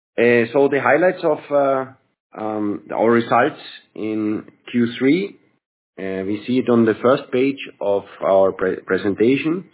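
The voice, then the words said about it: Sick, strained voice. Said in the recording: “I apologize for my voice. It's because I've been a bit sick.”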